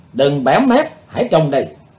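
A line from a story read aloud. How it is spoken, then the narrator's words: Loud female shout. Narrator (Vietnamese): Cô gái áo trắng hét lớn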